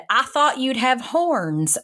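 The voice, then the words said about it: Put-on Texan accent. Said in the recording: “the girl they put me in a room with was from Texas ... this is my best accent I could possibly muster”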